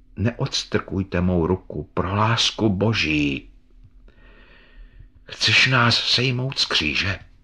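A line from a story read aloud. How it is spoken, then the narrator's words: Dark, sad voice. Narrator (Czech): řekl ukřižovaný temným a smutným hlasem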